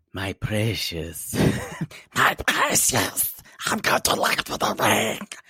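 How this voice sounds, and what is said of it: Gollum impression. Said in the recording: “That's what Gollum does... Gollum impression”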